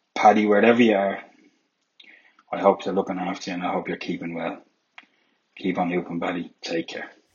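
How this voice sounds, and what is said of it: Emotional, voice starting to break. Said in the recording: “I'm probably hearing my voice. I'm starting to get a little emotional.”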